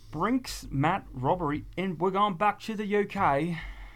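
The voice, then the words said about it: Bad put-on accent. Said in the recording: “Wow, that's not racist at all. ... Or just a bad accent.”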